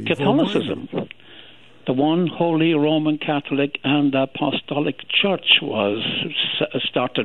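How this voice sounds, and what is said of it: Speaks with a noticeable accent. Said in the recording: “I'm judging from your accent”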